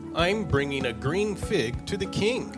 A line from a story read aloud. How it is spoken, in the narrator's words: he said